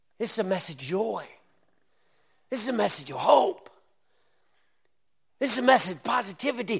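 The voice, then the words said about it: Excited yelling. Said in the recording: “I know I'm yelling tonight because I'm excited”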